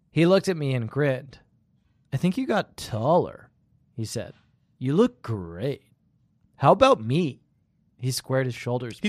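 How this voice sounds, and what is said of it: California bro voice. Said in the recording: “you're doing like a California bro.”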